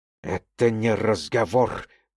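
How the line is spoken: Hiss. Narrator (Russian): прошипел гость

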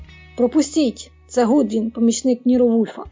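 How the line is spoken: Exclamation. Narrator (Ukrainian): Хеферан, а то був він, вигукнув

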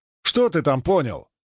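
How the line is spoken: Indignant. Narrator (Russian): как-то даже возмутился Пикачев

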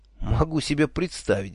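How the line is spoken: Sighing. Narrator (Russian): вздохнул я

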